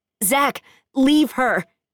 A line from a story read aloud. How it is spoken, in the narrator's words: Daniel yells